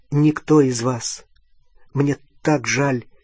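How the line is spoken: Pleading. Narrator (Russian): Он обращался умоляющим тоном

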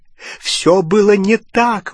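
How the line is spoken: Exclaiming. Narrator (Russian): воскликнул Дож

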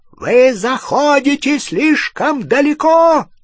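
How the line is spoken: Shouted. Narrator (Russian): закричал

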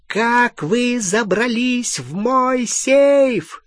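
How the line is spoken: Shrieking. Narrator (Russian): визжала Беллатриса

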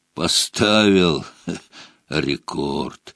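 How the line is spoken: Hoarse bass voice. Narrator (Russian): севшим басом произнес он

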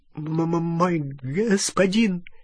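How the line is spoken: Terrified stammering babble. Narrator (Russian): залепетал гоблин, запинаясь

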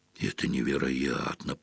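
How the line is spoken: Muttered. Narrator (Russian): пробормотал Рон

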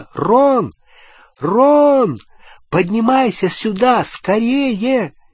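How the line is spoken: Shouted. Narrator (Russian): крикнула

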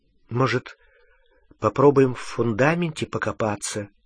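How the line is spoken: Hesitant suggestion. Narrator (Russian): неуверенно предложила Гермиона

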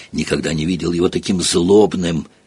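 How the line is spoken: Whisper. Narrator (Russian): прошептал Рон

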